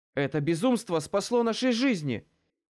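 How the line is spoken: Shout. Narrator (Russian): выкрикнула Лючия

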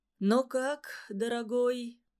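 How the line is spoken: Sad, resigned question. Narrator (Russian): Грустно, но явно не ожидая возражения, спросил Иван Иванович

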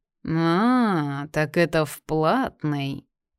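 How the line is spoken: Meaningful drawl. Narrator (Russian): Многозначительно протянул он

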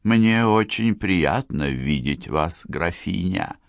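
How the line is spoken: Quiet, queen-like voice. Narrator (Russian): тихо сказала модистка … ее голос тоже было трудно отличить от королевского

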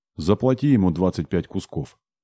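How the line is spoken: Plain. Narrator (Russian): сказал мне демон

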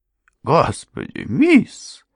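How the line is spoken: Shocked woman's exclamation. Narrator (Russian): воскликнула потрясенная госпожа Крент

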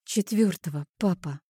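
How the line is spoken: Dismayed breathy exhale. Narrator (Russian): выдохнула, осознавая весь масштаб провалов в его памяти

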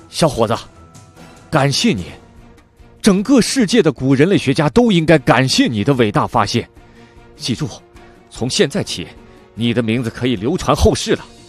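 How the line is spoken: Loud, excited. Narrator (Chinese): 布达生两眼放光，高声说道

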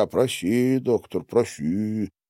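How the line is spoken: Muttering. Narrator (Russian): бормоча

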